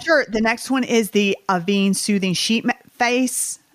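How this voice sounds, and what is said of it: Southern US accent. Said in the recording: “This is my Southern accent coming up. I just said face.”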